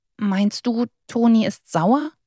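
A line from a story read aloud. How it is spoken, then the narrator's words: Quiet question. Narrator (German): fragte Butzel leise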